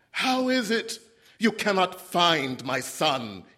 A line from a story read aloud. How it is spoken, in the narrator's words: He shouted